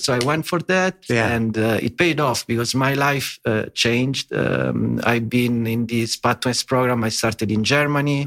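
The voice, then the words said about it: Italian-accented English. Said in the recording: “I'm Italian, of course, as my English accent suggests.”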